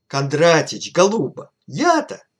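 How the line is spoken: Desperate exclamation. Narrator (Russian): воскликнул Лямзин, отчаянно всплеснув руками

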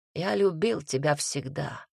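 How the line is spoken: Dull muffled voice. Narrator (Russian): глухо сказал Таман

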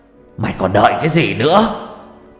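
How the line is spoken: Shout. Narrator (Vietnamese): Hét một câu

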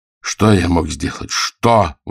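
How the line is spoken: Exclamation. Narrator (Russian): воскликнул он, завершив свое повествование

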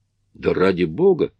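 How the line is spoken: Count exclaiming. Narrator (Russian): воскликнул граф

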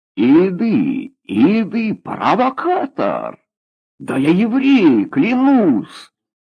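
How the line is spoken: Desperate shout. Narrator (Russian): крикнул в отчаянии Борис

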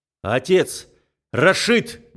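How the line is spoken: Loud shout. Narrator (Russian): громко кричу

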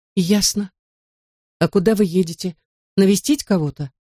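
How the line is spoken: Plain. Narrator (Russian): спросил

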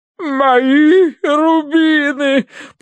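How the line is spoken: Sobbing. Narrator (Russian): прорыдала она

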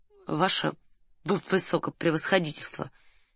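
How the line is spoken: Quiet speech. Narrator (Russian): тихо сказал Раст Петрович

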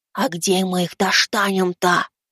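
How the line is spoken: Whisper. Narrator (Russian): прошептал я

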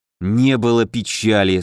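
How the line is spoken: Through gritted teeth. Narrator (Russian): сквозь зубы процедил Алеша

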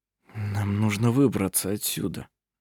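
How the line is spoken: Whispered. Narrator (Russian): прошептал он

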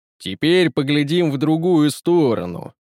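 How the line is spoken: Deep-voiced tyrant. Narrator (Russian): пробасил тиран

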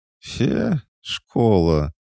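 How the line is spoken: Glum drawl. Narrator (Russian): уныло протянула она

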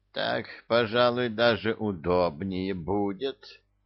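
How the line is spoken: Creaky voice from below. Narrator (Russian): проскрипел снизу заслуженный

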